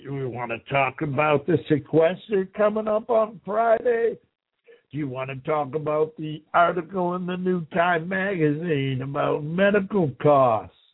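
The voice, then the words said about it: Raspy, slow-speaking voice. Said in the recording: “my raspy voice and how I talk too slow”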